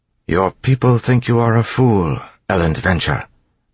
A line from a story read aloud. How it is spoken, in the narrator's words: Tyndall said quietly